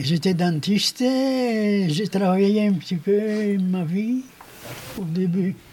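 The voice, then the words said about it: Slight Greek accent. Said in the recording (French): “C'est pour ça qu'il y a un certain accent.”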